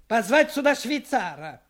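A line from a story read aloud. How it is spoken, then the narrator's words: Shout. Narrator (Russian): крикнул он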